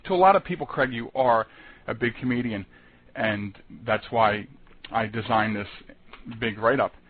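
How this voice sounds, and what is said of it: Philadelphia accent. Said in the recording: “Are you from Philadelphia? ... I heard the accent. ... I heard the accent.”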